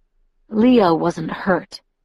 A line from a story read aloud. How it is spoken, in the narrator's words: Edward mumbled